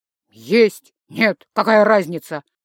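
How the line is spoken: Irritated father. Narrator (Russian): раздраженно ответил папа

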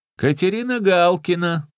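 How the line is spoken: Loud, chesty, mimicking voices. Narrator (Russian): громко, грудью говорил он, изображая всех в лицах

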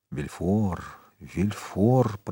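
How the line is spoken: Muttering. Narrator (Russian): пробормотал Монте-Кристо

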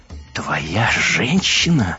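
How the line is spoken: Hoarse, coughing laugh. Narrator (Russian): Аска попыталась рассмеяться, но смех походил на хриплый кашель

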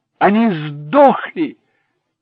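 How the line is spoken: Triumphant exclamation. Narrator (Russian): торжествующе воскликнул Дэнни

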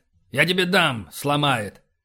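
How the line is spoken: Gruff officer's growl. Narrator (Russian): рыкнул, возвращаясь к своей обычной старпомовской манере поведения

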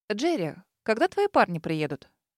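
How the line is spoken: Smirking, thoughtful. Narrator (Russian): усмехнулась, задумчиво проговорив

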